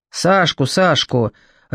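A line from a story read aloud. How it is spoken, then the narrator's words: Irritated confirmation. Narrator (Russian): раздраженно подтвердил Николай Адольфович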